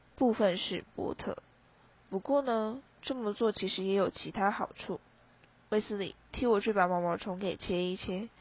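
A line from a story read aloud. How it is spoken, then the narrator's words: Hushed whisper. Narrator (Chinese): 马芬刻意压低声音，耳语似的轻声说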